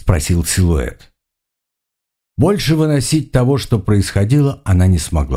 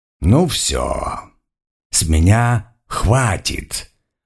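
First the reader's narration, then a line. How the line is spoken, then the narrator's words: Hissed. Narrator (Russian): прошипел кто-то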